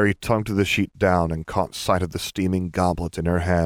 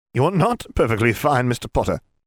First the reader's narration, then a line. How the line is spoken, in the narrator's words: she snapped